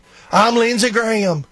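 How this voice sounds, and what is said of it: Imitates a southern accent. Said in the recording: “he got that southern accent.”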